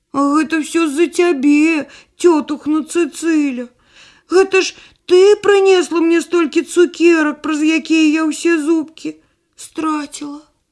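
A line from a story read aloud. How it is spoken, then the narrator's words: Near tears. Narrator (Belarusian): Барбарка ледь не заплакала і сказала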